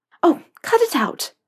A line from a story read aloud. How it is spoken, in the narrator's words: Narcissa snapped